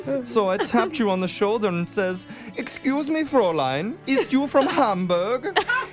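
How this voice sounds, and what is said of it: Put-on German accent. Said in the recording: “a sexy foreign accent ... Are you a Randy German right now ... that's not the sexy accent”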